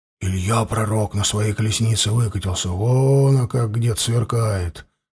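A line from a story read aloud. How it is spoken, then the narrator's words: Group whispering. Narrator (Russian): шептались егеря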